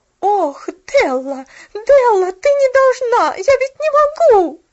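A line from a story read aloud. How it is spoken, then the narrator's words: Agitated shouting. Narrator (Russian): Взволнованно кричала она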